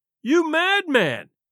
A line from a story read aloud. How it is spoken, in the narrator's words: cried the other